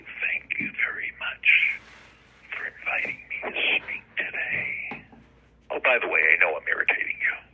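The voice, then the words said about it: Whispered speech. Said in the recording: “I start talking like this ... I speak in a whisper ... I'm speaking in a whisper for a purpose”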